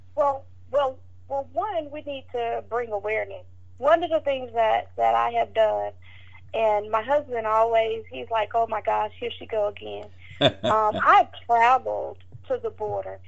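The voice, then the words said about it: Southern US accent. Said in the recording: “my southern accent... I'm from Georgia”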